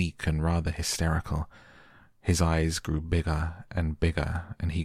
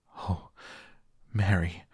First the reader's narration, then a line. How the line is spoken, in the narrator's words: he cried out with a half sob